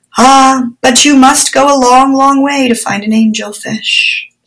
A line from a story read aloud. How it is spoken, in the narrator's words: he sighed